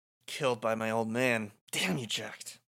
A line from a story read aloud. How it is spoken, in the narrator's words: says under his breath